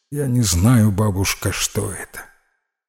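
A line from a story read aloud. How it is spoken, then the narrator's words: Quiet. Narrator (Russian): Питер тихо произнес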